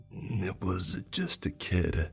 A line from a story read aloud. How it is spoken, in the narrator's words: he sighed